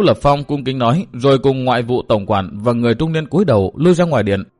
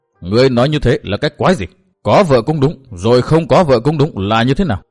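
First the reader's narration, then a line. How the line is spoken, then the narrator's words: Furious loud yell. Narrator (Vietnamese): Càng tức giận trước vẻ nhẫn nhơ của Tư Mã Minh, đế quân thét vang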